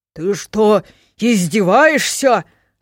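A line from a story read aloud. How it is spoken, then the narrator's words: Growling. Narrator (Russian): рыкнул он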